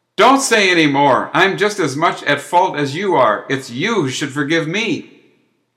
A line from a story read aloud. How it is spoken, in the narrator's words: The elder who was addressed cried back